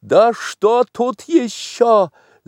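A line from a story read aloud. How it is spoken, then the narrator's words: Screaming. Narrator (Russian): завопила Татьяна Павловна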